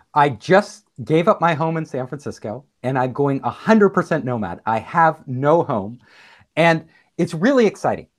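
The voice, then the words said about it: Excited, enthusiastic voice. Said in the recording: “I'm sure you could tell from my voice how excited I am”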